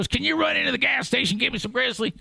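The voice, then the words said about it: Imitated southern US accent. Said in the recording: “he speaks with a southern accent because his parents are from Kentucky”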